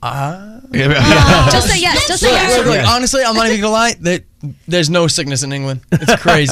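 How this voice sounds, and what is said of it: Slight British Leeds accent. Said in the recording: “I detect the British accent. You're picking up that accent ... It's a little Leeds.”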